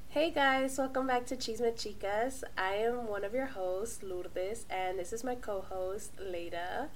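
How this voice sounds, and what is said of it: Sick, unsteady changing voice. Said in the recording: “sorry for my voice. I will probably be 50 shades of different voices because Leda here got me sick ... I apologize for my 50 shades of voices”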